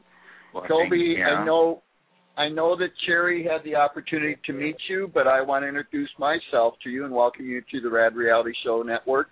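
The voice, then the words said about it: Weak Minnesota accent sounding Swedish. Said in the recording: “I sounded more Swedish than like I was from Minnesota, but, you know, I'm not very good at accents”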